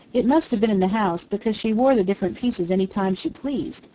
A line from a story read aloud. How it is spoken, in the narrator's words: the maid answered